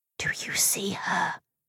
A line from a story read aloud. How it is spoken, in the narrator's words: I whispered